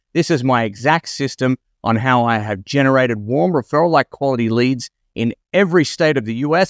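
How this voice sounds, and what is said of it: Australian accent. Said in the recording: “from the strangeness of my accent, I live in Australia.”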